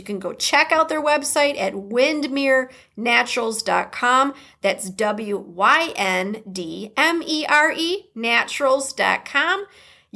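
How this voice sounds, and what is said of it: Midwestern American accent. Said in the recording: “I say that with a Midwest accent”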